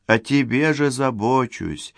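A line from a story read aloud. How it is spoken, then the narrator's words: Tender female voice. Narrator (Russian): ласково говорила Юля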